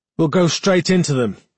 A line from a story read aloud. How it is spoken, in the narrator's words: he said, raising his voice, trying to sound both confident and decisive